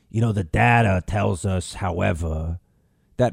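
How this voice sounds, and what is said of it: Imitates another person's voice. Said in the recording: “your impersonation of Fauci sounds a lot like Moe from The Simpsons ... it does kind of sound a little bit like Moe ... he has a different accent”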